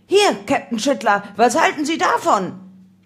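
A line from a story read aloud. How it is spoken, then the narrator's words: Policeman's sudden call. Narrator (German): einer der Polizisten plötzlich rief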